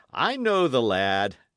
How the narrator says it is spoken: he chuckled

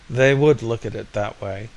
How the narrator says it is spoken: sighed Mayne

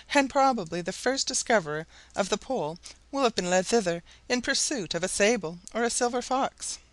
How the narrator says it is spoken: Barnett, laughing

